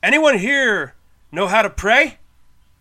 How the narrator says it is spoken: He called out

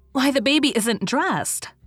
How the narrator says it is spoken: she exclaimed in a shocked tone

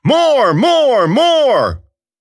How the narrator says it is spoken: rallying his men, shouting orders

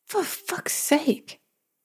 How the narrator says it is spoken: she hissed

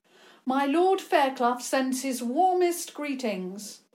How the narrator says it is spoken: George called out

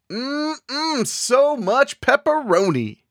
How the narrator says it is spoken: Halfway down the hall, he yelled

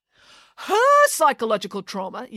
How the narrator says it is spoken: yelled the mayor

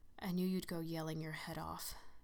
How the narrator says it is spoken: he whispered maliciously

